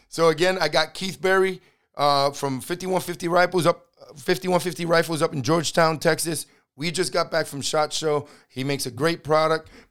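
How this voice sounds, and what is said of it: Raspy, partly lost voice. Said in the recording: “voice is still raspy from SHOT Show ... It was raspy before I got there ... I was losing my voice before I got there. I got most of it back.”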